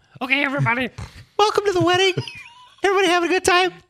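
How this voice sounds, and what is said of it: High-pitched helium voice. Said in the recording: “Do it in a different voice ... Do a little helium for one of them.”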